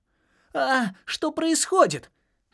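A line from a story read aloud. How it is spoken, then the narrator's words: Squeak. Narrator (Russian): пискнул Джаспер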